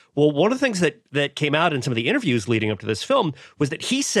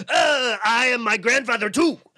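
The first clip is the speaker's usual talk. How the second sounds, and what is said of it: Unrecognizable put-on accent. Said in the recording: “I did an accent there ... the accent is so unrecognizable that I couldn't even tell what you were doing going for there”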